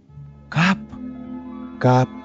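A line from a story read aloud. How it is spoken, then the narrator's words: Whispering. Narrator (Russian): шептал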